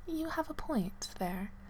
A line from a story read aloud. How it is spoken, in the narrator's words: replied softly